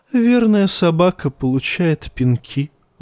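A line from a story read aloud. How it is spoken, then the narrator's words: Sighing. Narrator (Russian): вздохнул Евнух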